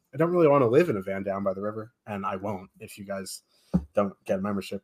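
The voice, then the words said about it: Rough, messed-up voice. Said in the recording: “my voice is all messed up, so I can sound like Chris Farley”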